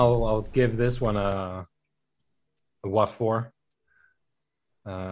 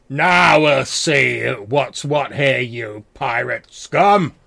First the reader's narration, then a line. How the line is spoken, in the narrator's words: this loud, like, booming voice is like